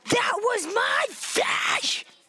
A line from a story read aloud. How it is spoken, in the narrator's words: howled